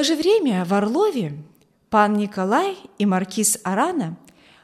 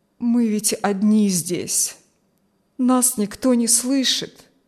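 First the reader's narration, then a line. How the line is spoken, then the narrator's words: Sad, childlike objection, old man. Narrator (Russian): возразил старик печально, почти по-детски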